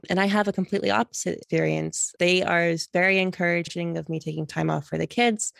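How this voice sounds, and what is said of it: American accent. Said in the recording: “you can tell by my accent, I'm originally American”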